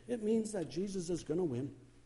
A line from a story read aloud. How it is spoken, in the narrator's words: the old janitor very quietly said